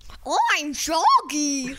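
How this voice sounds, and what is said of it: Shaggy cartoon character voice impression. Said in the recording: “his own Shaggy impression ... do a Shaggy impression”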